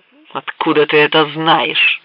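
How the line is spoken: Growl. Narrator (Russian): прорычал Биф

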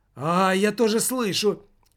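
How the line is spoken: Exclamation over phone. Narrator (Russian): воскликнул в трубке

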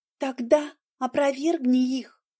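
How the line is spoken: Quiet. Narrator (Russian): тихо сказала Ольга

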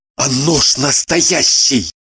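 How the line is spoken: Whisper. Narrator (Russian): прошептал незнакомец

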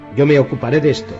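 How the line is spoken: Curt firm tone. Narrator (Spanish): dijo en tono tajante

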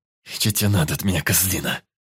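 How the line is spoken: Angry hiss through teeth. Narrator (Russian): Зло прошипел я сквозь зубы

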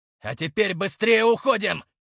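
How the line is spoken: Shout. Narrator (Russian): закричал Игнат

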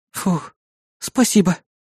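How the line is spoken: Relieved exhale. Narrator (Russian): С облегчением выдохнула критика

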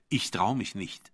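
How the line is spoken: Plain. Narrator (German): sagte ich

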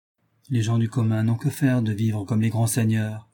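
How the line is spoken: Lecturing tone. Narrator (French): dit Robert d'un ton de pédagogue

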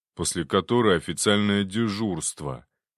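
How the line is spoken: Gloomy mutter. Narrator (Russian): мрачно буркнул Шуклин

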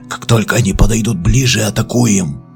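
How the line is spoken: Whispered. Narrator (Russian): прошептал Мерстон

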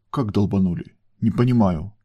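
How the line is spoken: Incredulous whisper. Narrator (Russian): прошептала Альфа недоверчиво

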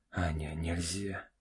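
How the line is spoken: Whisper. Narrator (Russian): прошептал Олег

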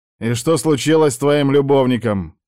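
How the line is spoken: Stern question. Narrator (Russian): спрашиваю я строго у Алика

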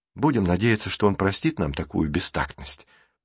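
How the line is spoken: Muttering. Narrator (Russian): пробормотал Джейсон

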